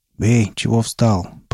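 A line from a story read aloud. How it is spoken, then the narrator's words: Muffled boom through gas mask. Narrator (Russian): прогудел турок хоботом противогаза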